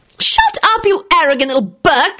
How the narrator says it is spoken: screeched Rosie

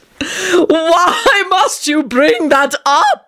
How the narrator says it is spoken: Tony screeched piteously

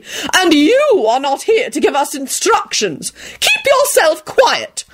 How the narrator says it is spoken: Lady Fanshawe hollered out indignantly

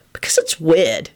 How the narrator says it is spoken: he replied irritably

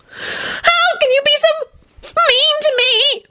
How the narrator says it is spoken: Loretta wailed pitifully and burst into tears

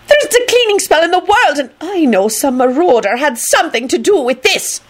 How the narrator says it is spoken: McGonagall shouted wrathfully into the air

